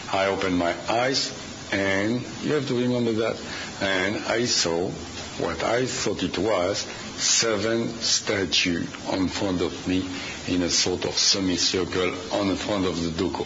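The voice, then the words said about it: Speaks with a foreign accent. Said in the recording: “with my accent”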